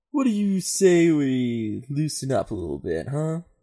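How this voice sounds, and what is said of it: Stoner character voice. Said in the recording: “stoner voice”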